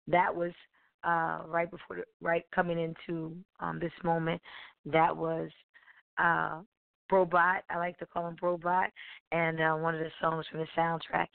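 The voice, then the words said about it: Hoarse, strained voice. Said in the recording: “<clears throat> sorry i'm losing my voice”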